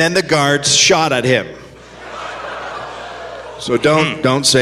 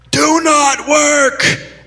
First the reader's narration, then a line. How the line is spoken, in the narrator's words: One local Dane yelled at them